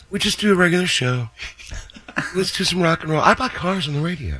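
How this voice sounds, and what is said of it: Imitates another person's voice. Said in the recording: “does a great impression of John”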